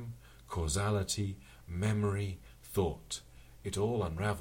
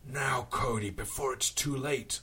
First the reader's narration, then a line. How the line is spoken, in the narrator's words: roared